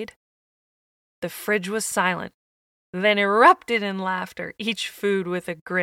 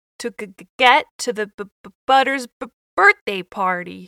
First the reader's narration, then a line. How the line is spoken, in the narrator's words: With a stutter and a chuckle, went on to say